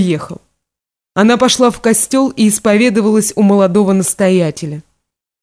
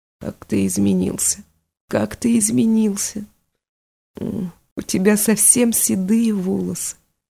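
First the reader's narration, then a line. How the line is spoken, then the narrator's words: Whispering woman. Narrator (Russian): она прошептала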